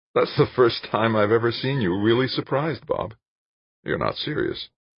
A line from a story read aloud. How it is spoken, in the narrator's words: Laughing, Jane said